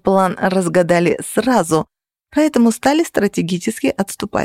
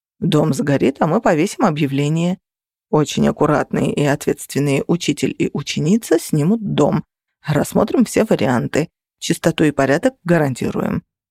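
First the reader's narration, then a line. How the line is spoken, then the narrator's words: Calm remark. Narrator (Russian): спокойно заметил Феникс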